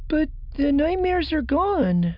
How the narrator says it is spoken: Chiri said, looking up with pleading in her eyes

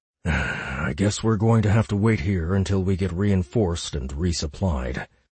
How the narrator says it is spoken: Hayhurst sighed

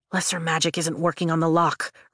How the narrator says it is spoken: Riddick mutters

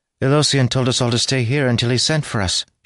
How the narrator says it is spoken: she said in a worried tone

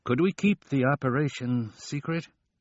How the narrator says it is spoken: The State Department man said nervously

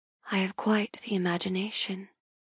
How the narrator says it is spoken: I whisper

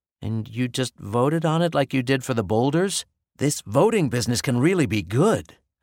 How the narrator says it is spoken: I said excitedly

